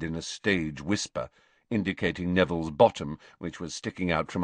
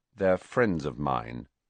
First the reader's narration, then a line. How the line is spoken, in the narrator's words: said Harry coldly